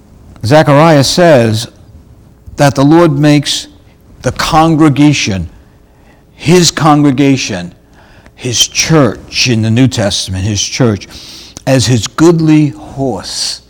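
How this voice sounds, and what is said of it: New York accent. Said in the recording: “my New York accent may get in the way of the horse, H-O-R-S-E, horse.”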